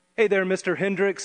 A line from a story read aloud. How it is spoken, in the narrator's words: I replied